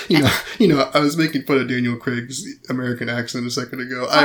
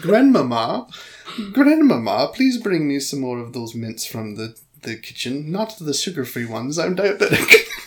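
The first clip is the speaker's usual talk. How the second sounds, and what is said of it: Put-on posh British child accent. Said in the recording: “sounds British. It sounds like Little Lord Fauntleroy.”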